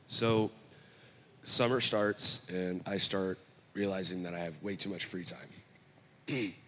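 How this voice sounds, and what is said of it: Unwell, strained-sounding voice. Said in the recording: “my voice is not feeling that well right now”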